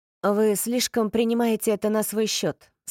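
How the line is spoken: Plain. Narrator (Russian): сказал Рин

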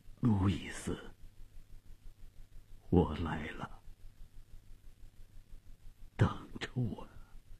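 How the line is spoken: Trembling, faint voice. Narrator (Chinese): 费迪南用颤抖而微弱的声音说

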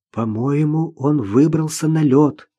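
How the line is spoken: Whisper. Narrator (Russian): шепнула Наташа

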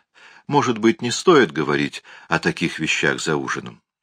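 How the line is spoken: Pleading, wrinkled nose. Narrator (Russian): сморщив носик, взмолилась

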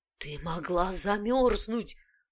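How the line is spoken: Hoarse rasp. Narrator (Russian): прохрипел он

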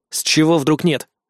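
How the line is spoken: Plain. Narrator (Russian): спросил я его

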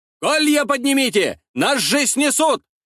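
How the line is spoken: Soldier shouting from afar. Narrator (Russian): закричал какой-то воин в глубине русского строя

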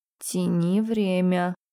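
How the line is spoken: Whisper in the ear. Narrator (Russian): Шепнули на ухо

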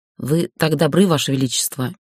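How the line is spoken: Strained through a groan. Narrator (Russian): едва выдавила сквозь невольный стон

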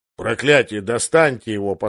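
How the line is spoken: Grumbling. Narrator (Russian): послышалось ворчание

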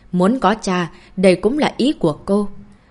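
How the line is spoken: Raised-voice question. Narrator (Vietnamese): Phong Khải Trạch cao giọng hỏi

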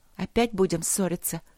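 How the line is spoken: Quiet question. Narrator (Russian): тихо спросила принцесса

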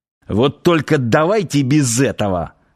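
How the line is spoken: Irritated grimace. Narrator (Russian): раздраженно скривился Ярчук

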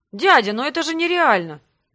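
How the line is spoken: Exclamation. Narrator (Russian): воскликнул Грег

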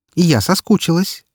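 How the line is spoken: Categorical, peremptory tone. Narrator (Russian): заявила она безапелляционным тоном

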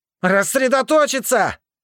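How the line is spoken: Straining repeated shout. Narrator (Russian): Несколько раз крикнул я, до предела напрягая связки

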